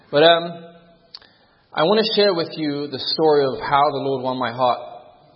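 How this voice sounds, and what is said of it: Mixed Irish and London English accent. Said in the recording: “I was born in the Republic of Ireland, in a city called Galway ... we moved to London ... moved here to Weimar, or to California ... So hence why the accent is slightly jumbled up.”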